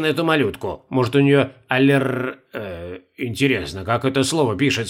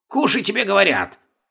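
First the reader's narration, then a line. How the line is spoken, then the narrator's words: Old man growling. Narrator (Russian): зарычал старый китаец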